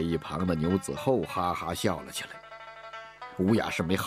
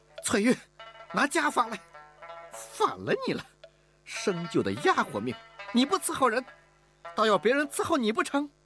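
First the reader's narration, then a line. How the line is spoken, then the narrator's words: Exasperated shout. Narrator (Chinese): 忍无可忍地喊道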